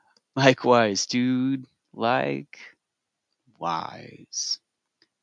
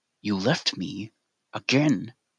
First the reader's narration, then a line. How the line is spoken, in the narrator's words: Katie hissed